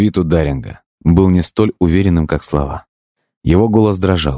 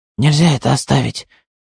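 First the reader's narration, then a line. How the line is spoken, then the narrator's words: Interrupting in a strained voice. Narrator (Russian): перебил Даринг странным, напряженным голосом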